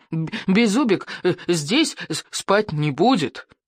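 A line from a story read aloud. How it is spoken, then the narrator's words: Furious hiss. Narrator (Russian): в ярости зашипел Беззубик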